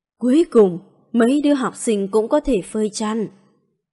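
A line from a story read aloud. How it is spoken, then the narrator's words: Soft sighing voice. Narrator (Vietnamese): Ngọc Đài tiên sinh cũng nhỏ tiếng thở dài, nói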